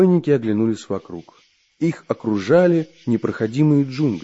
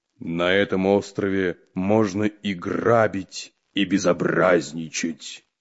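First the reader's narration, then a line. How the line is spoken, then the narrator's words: Deep bass voice. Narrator (Russian): пробасил Буль-Буль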